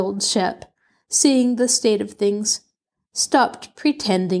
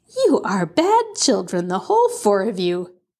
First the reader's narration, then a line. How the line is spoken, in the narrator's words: Cousin Anne laughed and said